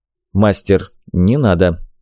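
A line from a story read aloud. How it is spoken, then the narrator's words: Quiet. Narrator (Russian): негромко сказал Назир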